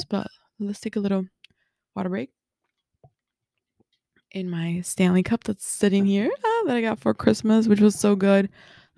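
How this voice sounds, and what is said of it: Hoarse, partly lost voice. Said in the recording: “my voice is still, like, half gone because, you know, New Year celebrations”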